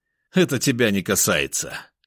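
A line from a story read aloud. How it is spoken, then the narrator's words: Rude, then coughing. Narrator (Russian): грубо ответил он и тут же закашлялся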